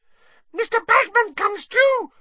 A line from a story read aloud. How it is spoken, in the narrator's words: squeaked Winky